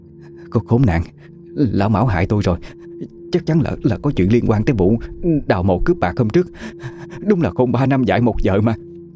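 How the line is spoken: Trembling explanation. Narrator (Vietnamese): Bà Hảo không nhìn con, chỉ run rẩy giải thích

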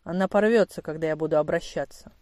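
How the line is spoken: Matter-of-fact tone. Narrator (Russian): будничным тоном сказал инспектор

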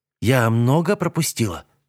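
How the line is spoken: Plain. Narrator (Russian): спросила она

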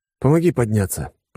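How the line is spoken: Wheezing. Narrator (Russian): просипел я

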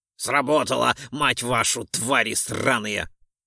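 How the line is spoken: Laughing loudly. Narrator (Russian): захохотал Ролдон

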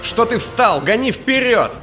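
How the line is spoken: Shouted. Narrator (Russian): крикнул я

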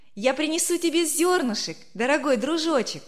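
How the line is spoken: Cheerful shout. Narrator (Russian): весело крикнула Верочка

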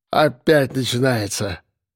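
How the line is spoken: Grumbling. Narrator (Russian): забурчал Архип

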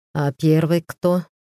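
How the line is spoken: Sighing question. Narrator (Russian): спросил Баламак и вздохнул

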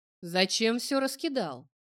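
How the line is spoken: Stern warning. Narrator (Russian): неймарец грозно предупредил

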